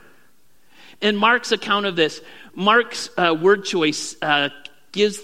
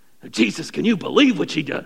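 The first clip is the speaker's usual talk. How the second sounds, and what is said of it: Imitates a snorting horse. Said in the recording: “my impression of a snorting horse”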